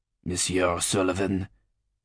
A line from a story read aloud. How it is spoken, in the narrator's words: he growled